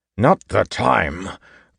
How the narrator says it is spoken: Kanpar asked angrily

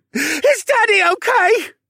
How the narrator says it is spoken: he cried

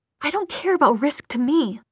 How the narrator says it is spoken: he hissed

